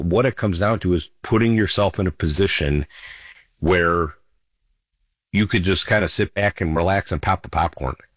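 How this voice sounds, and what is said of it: Slightly scratchy, hoarse voice. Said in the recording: “my voice may be a little scratchy today ... I'm not my normal self ... I've been talking on the phone an awful lot”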